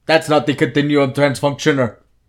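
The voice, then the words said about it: Poorly done put-on Nordic accent. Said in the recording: “the Nordic guys are like ... That was a terrible accent, but one of my better accents.”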